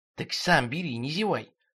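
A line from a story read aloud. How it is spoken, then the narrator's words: Angry whisper. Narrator (Russian): шепотом же злился Терентий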